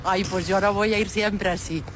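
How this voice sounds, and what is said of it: Put-on Galician Spanish accent. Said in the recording (Spanish): “Es acento gallego, ¿eh? ... es muy, muy gallega.”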